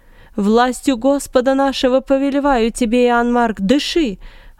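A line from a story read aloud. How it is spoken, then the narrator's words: Yelling. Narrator (Russian): орал Варнава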